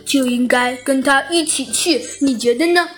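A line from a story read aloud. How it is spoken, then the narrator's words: Silly giggling. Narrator (Chinese): 小鸡墩墩傻呵呵的笑了笑，说道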